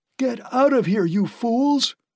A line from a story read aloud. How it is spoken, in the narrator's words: he howled at them